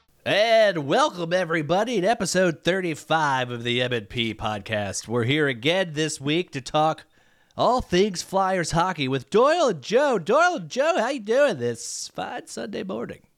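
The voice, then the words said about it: Exaggerated radio-host character voice. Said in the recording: “doing that voice ... Radio ... old ... old characters”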